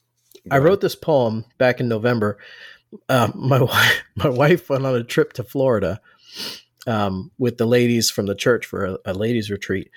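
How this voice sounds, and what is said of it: Voice slightly rough, not great. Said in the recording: “my voice isn't great, so you'll have to forgive me”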